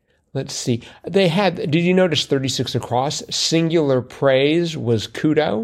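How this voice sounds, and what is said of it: Usual voice. Nothing is said of it.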